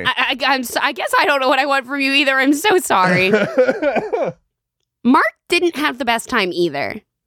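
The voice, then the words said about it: Hoarse, sick, fading voice. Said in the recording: “I got a cough. I'm losing my voice. I got the sickness energy.”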